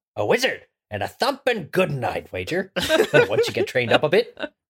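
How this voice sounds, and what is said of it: Hagrid character voice. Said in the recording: “not Southern Hagrid, just regular Hagrid ... Ah, good. Very good. ... Did somebody just play the audiobook?”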